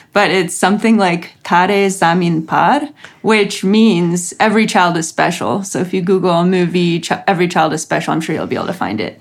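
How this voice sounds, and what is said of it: Ukrainian accent. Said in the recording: “I'm probably saying it with a Ukrainian accent.”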